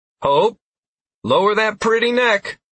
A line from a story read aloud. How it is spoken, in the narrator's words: I called out to the gray and brown parasaur